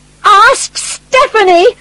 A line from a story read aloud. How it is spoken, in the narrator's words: shouted